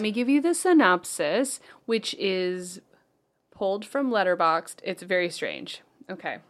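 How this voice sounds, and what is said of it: Usual voice. Nothing is said of it.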